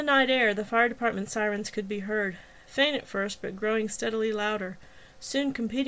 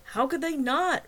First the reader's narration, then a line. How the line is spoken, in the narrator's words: Wagner yelled back